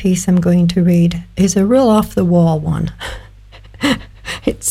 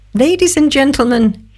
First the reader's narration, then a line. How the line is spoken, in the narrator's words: squeaked his high-pitched voice